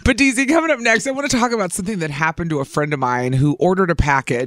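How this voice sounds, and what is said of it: Hoarse, strained voice. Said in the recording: “I'm losing my voice. I went out last night. ... I feel like I'm losing my voice today”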